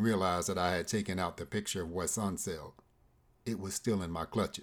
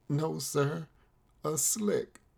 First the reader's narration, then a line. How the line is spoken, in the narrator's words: groaned